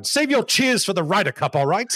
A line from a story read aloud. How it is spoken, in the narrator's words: he snaps at the crowd